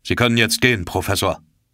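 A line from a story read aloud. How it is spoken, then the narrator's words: Sharp. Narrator (German): sagte der Kapitän scharf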